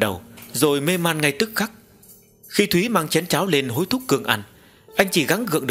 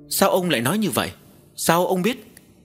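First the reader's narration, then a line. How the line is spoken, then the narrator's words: Stammering question. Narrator (Vietnamese): Cô lắp bắp hỏi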